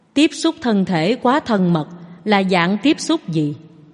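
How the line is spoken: Softly smiling. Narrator (Vietnamese): Phạn Già La khẽ mỉm cười

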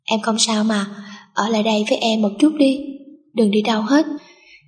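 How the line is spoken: Sweet, reassuring. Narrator (Vietnamese): Cô mỉm cười ngọt ngào trấn an

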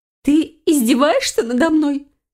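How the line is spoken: Squeak. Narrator (Russian): пискнула Файона

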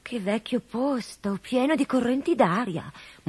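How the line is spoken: Murmuring. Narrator (Italian): mormorò Coda bella

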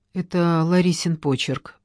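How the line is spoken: Sigh. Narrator (Russian): вздохнула Ольга

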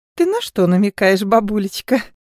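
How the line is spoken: Laughing. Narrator (Russian): Катюша рассмеялась

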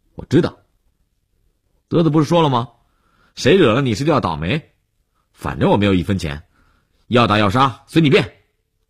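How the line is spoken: Loud, defiant interruption. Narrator (Chinese): 悠悠无欲则刚地，放大声音打断了李文海

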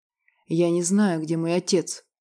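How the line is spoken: Hoarse mutter. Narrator (Russian): сипло пробормотал Клымский

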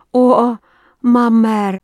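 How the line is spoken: Moan. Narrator (Russian): простонала она

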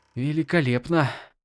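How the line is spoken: Mutter. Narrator (Russian): пробормотала

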